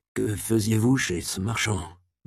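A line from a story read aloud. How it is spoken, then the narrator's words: Painful stammer. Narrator (French): balbutia péniblement Andreas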